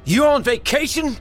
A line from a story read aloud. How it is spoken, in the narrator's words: Dale yelled